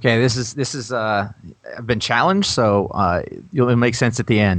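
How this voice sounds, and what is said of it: Usual voice. Nothing is said of it.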